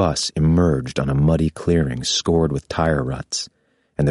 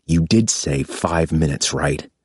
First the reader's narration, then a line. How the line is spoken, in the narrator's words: hiss